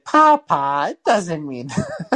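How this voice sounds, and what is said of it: Imitation of a young girl. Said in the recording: “that's a good impression of her.”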